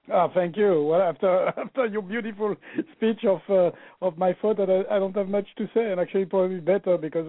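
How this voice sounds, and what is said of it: Speaks with a foreign accent. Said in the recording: “with my accent, I'm always afraid people lose what I mean in translation sometimes”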